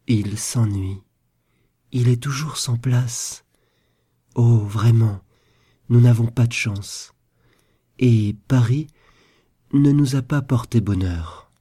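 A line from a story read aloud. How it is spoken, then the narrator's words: Sad. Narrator (French): dit tristement Caroline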